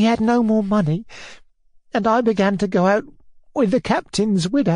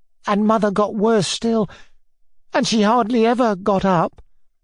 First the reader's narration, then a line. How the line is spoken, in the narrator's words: Nelly went on, and her voice quivered and broke